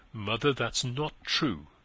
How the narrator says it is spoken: he firmly answered

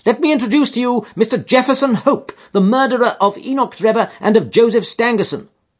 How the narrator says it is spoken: he cried with flashing eyes

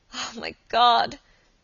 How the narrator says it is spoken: she cried

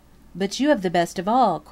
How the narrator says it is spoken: cried Peter

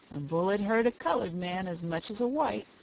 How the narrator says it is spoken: muttered the black surlily

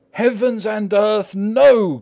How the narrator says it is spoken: cried Arthur in a storm of passion

